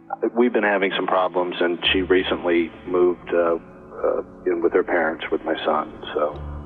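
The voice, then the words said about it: Sad, downcast voice. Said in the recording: “you sound sad ... that's why you sound so sad.”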